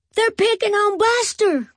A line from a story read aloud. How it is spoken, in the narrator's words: cried Binky